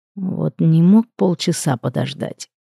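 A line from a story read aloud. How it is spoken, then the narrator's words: Barely audible grumble. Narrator (Russian): проворчал Амадин едва различимо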